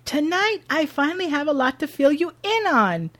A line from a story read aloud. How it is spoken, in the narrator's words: announces loudly